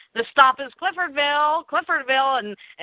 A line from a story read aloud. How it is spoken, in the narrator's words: Feathersmith yells